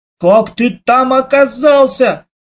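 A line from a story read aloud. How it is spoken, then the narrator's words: Shout. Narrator (Russian): я закричал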